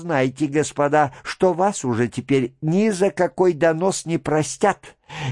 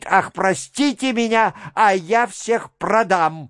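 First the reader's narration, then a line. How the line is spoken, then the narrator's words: Fearful shout. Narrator (Russian): Из страха ... дурак ... закричит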